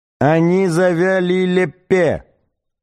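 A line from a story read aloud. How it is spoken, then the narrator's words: Yell. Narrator (Russian): Снова завопил Сларти Бартфаст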